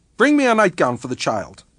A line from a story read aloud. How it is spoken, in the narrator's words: Miss Fellows said sharply